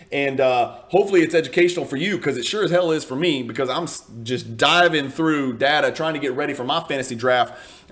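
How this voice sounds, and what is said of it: Speaks with a noticeable accent. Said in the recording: “listening to me and my accent”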